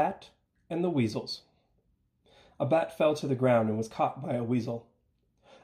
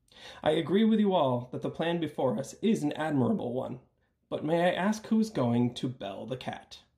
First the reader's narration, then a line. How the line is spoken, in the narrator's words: an old mouse said